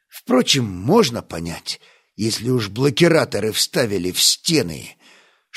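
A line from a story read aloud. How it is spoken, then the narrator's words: Hissing through teeth. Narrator (Russian): Шипя сквозь зубы, Стас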